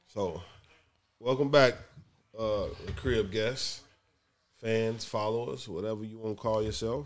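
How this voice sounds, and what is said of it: Voice sounds a bit sick. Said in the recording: “Excuse my voice. I've been a bit under the weather all week.”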